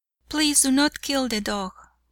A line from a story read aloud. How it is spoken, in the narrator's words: pleaded the young and tender-hearted fellow